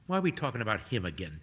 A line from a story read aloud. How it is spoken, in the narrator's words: Toby mutters